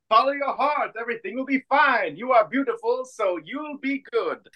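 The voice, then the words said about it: Put-on French accent. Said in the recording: “I said it in a French accent, so it's charming.”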